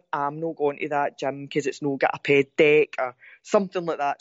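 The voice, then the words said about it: Strong Ayrshire Scottish accent. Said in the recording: “that was me saying that, my pure Ayrshire accent there. ... That's my Ayrshire”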